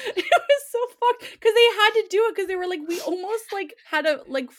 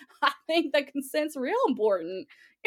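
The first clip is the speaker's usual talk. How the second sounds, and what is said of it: Attempted southern hillbilly accent. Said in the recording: “I can't do a southern accent. ... I'd play it as a fucking hillbilly who's never had sex before.”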